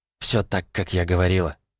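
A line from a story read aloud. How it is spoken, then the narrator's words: Quiet. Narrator (Russian): тихо произнесла Джейн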